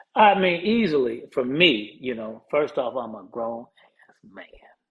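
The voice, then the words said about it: Whispering. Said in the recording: “He whispered it. Why are you whispering,”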